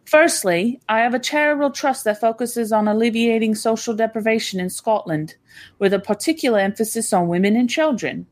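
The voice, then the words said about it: Put-on British accent. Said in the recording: “I'm doing it in a British accent”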